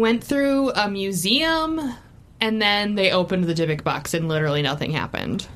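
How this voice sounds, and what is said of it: Usual voice. Nothing is said of it.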